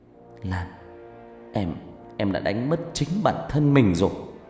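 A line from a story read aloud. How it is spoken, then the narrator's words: Choked-up voice. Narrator (Vietnamese): Khánh nói bằng giọng nghẹn ngào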